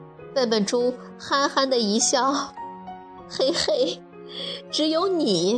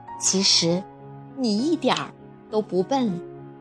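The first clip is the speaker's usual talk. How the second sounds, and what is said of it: Quiet, soft-spoken line. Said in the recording (Chinese): “小声”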